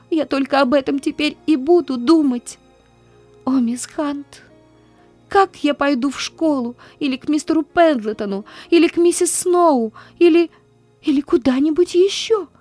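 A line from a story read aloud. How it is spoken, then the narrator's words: Gasping, desperate sobbing. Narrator (Russian): Она с трудом хватала ртом воздух и отчаянно рыдала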